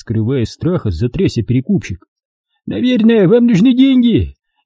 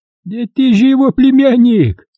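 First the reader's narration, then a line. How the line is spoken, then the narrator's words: Joyful squeak. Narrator (Russian): радостно пропищал спекулянт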